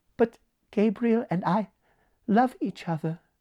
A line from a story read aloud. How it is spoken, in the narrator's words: said Evelyn, very sadly